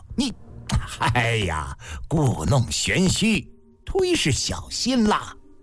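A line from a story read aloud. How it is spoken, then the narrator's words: Exasperated laugh. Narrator (Chinese): 甘茂不禁又气又笑道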